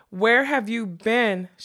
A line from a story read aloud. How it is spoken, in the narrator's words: she cried